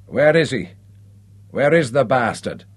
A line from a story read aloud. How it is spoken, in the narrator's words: slurred the chief